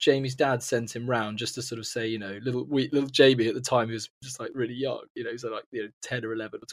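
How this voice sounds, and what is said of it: Usual voice. Nothing is said of it.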